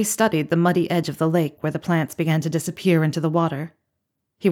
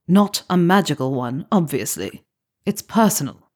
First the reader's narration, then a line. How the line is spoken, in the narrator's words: bristled, he replied in the same annoyed voice